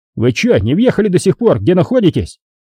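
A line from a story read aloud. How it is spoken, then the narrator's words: Furious yelling. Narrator (Russian): заорал побагровевший Романенко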